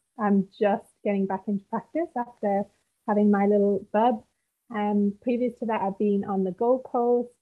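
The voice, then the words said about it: British accent. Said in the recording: “originally I'm from the UK, as you can tell by my rich accent... It's a nice accent... I really like your accent. It's very easy to listen to.”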